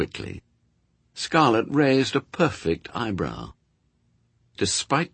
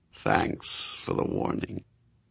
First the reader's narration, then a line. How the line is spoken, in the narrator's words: Scarlet purred